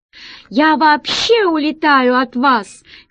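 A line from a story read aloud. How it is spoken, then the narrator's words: Shouted back. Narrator (Russian): кричал в ответ Мустафа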